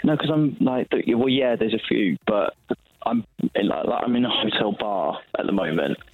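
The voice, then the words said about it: Quiet, low hushed voice. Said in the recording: “why are you talking really in a low voice?”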